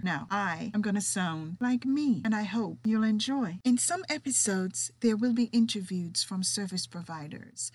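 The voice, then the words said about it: Jamaican accent with British touches. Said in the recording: “my distinct accent. You see, I am Jamaican with a little bit of British running through me.”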